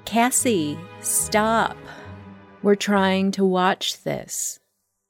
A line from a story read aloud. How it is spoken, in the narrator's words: rolled her eyes and said loudly